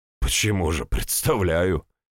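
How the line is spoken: Smirking. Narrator (Russian): хмыкнул я

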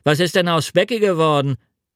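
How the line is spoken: Shepherd asking loudly. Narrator (German): ein Hirte mit Schafen, indem er laut fragte

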